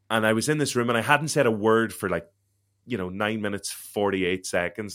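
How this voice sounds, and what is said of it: Derry Northern Irish accent. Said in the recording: “I'm from Derry, so I have a Derry accent.”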